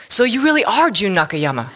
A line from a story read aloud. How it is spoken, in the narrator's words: the caller exclaimed